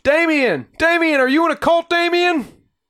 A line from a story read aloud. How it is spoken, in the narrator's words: reporters yelled